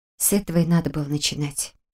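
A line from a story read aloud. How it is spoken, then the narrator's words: Little rat's mutter. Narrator (Russian): пробормотала крыска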